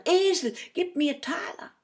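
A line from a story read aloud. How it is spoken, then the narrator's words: Repeated calling. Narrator (German): ein um das andere Mal rief er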